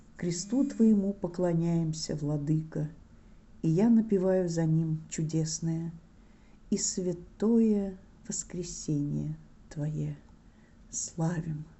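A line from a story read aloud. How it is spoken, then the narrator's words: Father chanting wistfully. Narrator (Russian): отец напевает приятно-грустно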